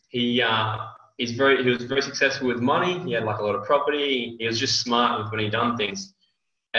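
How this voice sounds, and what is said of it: Australian accent. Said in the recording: “I'm from Australia, not US originally. So get used to the accent”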